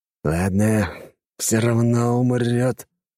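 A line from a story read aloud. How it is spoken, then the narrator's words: Exhaled, suppressing rage. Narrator (Russian): выдохнул Юнусов, пытаясь хоть как-то успокоить бурлящую внутри ярость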